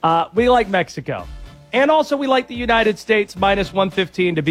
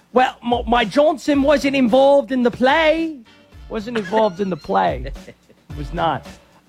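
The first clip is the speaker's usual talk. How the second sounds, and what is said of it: Thick English accent, Harry Kane impression. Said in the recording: “in a thick English accent, Harry Kane”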